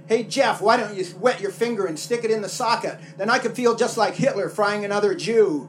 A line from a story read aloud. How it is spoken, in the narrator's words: My buddy Pat yelled down